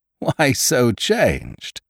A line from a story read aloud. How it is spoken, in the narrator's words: said Ned, laughing